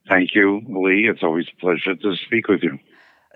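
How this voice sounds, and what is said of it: New York accent. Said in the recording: “still proudly sports an unmistakable New York accent,”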